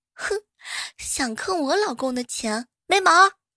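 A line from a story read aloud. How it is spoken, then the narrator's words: Loud muttering. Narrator (Chinese): 新娘嘴里头啊还大声的嘟囔着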